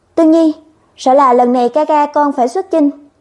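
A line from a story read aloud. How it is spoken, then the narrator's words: Sighing. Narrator (Vietnamese): thở dài nói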